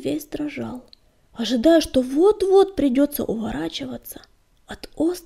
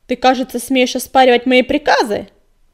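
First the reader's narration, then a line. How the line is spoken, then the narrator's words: Barking in face. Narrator (Russian): Рявкнула ему в лицо синяя звезда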